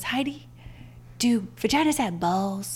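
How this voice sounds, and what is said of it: Imitation of a cartoon character's voice. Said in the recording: “That's a nice voice impersonation.”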